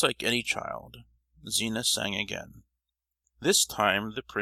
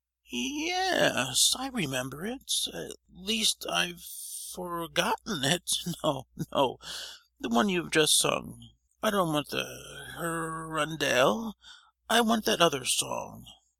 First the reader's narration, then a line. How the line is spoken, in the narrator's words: whined the prince